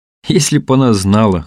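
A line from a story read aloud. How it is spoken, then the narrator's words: Chuckling. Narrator (Russian): хохотнул Тихон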